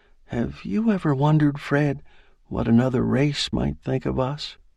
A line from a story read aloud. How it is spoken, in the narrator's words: her say softly